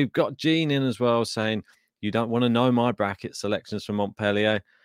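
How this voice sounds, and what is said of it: Usual voice. Nothing is said of it.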